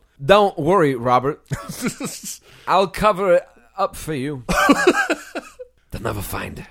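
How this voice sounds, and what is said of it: Low gravelly Christopher Walken impression. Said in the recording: “as Christopher Walken ... low and gravelly ... that part of the impression”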